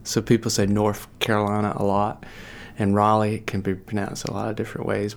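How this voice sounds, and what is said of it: Southern US accent. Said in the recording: “I did not pronounce that with the correct Southern accent ... where did you find this guy from with this accent?”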